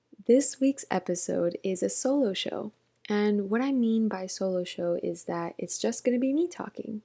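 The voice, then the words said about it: Whispering. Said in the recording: “if you feel like I am whispering, it's because I'm trying my best to do so”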